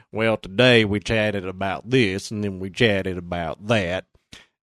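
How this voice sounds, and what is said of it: Imitated Southern Indiana drawl. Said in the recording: “I don't understand where the Southern Indiana drawl comes from”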